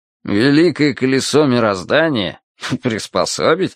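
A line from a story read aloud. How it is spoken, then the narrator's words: Skeptical snort. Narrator (Russian): хмыкнул Виталя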